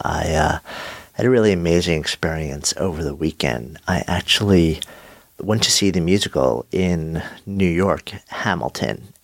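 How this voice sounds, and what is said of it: Slightly nasal, congested voice. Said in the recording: “my voice sounds a little bit off. I have a bit of a cold ... I may sound a little bit nasally”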